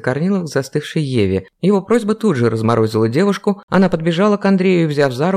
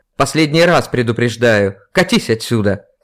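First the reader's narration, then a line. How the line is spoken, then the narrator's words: Shouted. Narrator (Russian): крикнул Андрей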